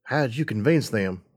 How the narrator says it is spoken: I asked, keeping my voice low

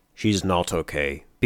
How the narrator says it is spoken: B-21 muttered softly

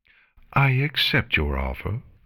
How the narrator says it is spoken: Chrysalis calmly replied

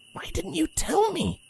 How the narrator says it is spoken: The Pegasus whispered, her voice speckled with emotion

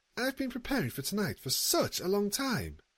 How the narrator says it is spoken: she chattered brightly

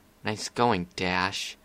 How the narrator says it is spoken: muttered to herself

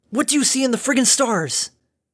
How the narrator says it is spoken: Dinky gasped

